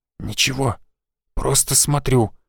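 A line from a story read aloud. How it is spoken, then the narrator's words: Whispered reply. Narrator (Russian): шепотом ответил он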